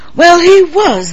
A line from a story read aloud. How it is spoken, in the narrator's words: the Admiral snapped